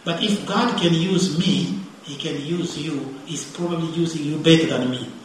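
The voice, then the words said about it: Speaks with a noticeable accent. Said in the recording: “I can't even talk. You get even annoyed by my accent”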